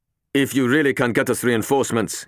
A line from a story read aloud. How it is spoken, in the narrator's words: he told Harper urgently